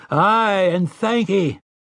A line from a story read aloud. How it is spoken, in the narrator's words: they had roared their answer